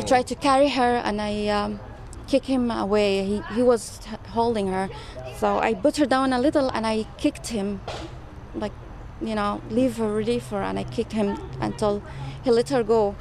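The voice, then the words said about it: Slight foreign accent. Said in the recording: “a little bit of an accent”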